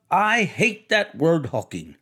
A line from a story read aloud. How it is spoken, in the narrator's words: objected Tom crossly